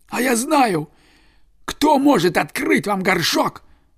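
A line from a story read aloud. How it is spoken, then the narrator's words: Exclaiming fox. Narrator (Russian): воскликнул лис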